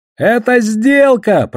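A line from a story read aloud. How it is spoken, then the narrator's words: Shout. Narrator (Russian): прокричал я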